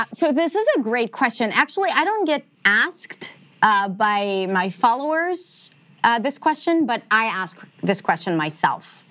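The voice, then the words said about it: Near-flawless American English accent. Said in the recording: “you have like almost a flawless American accent”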